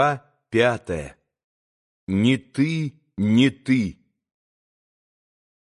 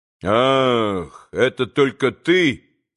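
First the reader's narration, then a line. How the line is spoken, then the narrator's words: Dry, curt. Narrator (Russian): сказал сухо Иван Федорович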